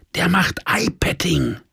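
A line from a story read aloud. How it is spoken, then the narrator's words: Whisper. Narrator (German): flüsterte meine Süße über unseren Tisch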